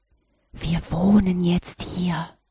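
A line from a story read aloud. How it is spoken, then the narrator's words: Whisper in ear. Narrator (German): flüsterte er ihr ins Ohr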